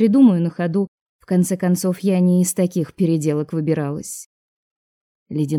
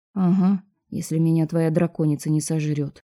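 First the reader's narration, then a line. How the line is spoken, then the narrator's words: Muttering. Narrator (Russian): пробормотала я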